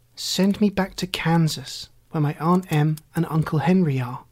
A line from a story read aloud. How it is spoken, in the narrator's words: she answered earnestly